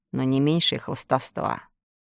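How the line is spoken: Grumbling sailor. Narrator (Russian): проворчал моряк

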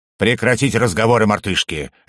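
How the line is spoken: Barked. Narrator (Russian): рявкнул Фагрет

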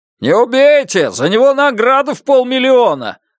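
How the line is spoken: Shouted out. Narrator (Russian): выкрикнул кто-то

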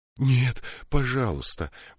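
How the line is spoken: Pleading. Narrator (Russian): взмолилась Мириамель

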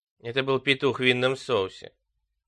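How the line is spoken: Cold. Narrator (Russian): сказала мать холодно

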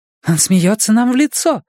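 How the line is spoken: Exclaimed. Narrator (Russian): воскликнула Майя

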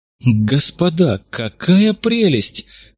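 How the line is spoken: Delighted exclamation. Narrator (Russian): восторженно воскликнул кто-то

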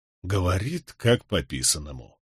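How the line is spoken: Admiring whisper. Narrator (Russian): восхищенно прошептал мне на ухо Барак

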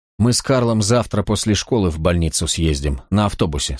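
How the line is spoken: Plain. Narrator (Russian): сказал я

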